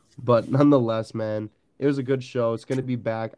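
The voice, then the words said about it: Congested, duck-like voice. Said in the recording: “my allergies are terrible. So I sound like a duck. ... I just sound terrible.”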